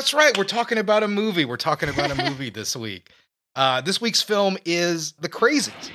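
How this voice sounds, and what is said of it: Usual voice. Nothing is said of it.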